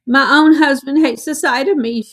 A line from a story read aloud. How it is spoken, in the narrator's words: wailed